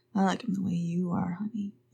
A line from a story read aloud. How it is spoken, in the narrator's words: he said, smiling sleepily